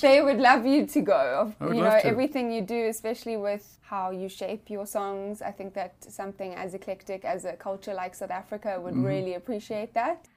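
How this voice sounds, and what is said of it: South African accent. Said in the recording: “I'm from South Africa, as you can hear my accent”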